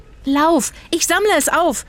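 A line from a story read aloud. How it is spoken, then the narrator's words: Shouted. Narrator (German): schrie Zora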